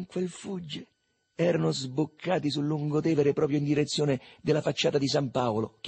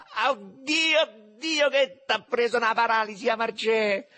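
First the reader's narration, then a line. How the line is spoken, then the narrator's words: Shouting while guffawing. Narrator (Italian): sghignazzando, gridava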